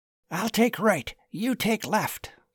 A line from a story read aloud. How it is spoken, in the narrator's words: whispered Charles